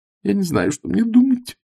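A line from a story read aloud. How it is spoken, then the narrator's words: Tearful whimper. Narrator (Russian): со слезами на глазах проскулила миссис Экрейт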